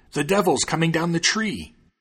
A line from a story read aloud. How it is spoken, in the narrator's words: the thieves below cried out